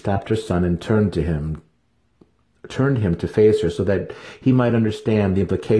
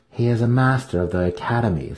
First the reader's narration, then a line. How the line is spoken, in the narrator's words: Cinefe replied